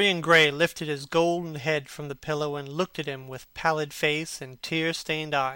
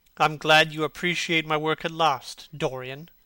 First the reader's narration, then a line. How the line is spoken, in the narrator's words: said Hallward coldly, when he had recovered from his surprise